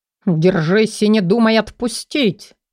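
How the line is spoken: Growl in muffled silence. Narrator (Russian): раздалось рычание в ватной тишине

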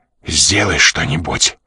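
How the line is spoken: Desperate whisper. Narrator (Russian): отчаянно прошептал он на ухо Жанне

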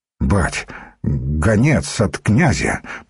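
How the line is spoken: Embarrassed mutter. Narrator (Russian): пробормотал смущенно

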